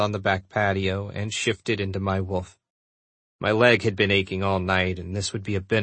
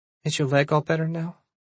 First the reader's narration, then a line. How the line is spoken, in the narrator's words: she asked sleepily